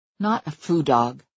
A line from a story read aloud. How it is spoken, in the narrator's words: I said tightly